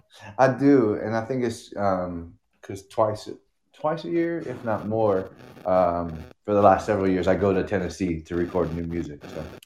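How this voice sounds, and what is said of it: Unusual accent for a Californian. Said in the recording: “You got an interesting accent for someone from Long Beach.”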